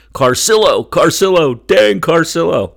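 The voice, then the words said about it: Tim Saunders play-by-play impression. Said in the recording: “my Tim Saunders impression”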